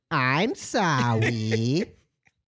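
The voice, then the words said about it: Little baby voice. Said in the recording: “does a little baby voice ... I turned into a little baby.”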